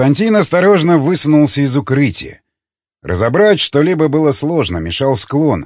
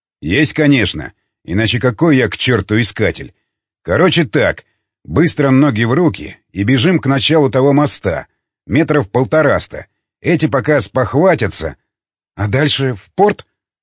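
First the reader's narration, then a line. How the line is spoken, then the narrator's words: Plain. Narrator (Russian): спросил Константин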